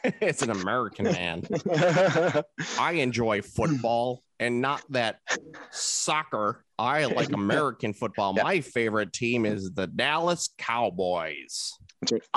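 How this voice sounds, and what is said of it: Benedict Cumberbatch impression, American accent. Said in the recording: “I'm going to talk with my American Benedict Cumberbatch. ... Yes, that's exactly it.”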